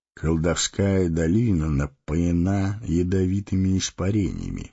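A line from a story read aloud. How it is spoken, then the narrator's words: Plain. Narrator (Russian): сказал он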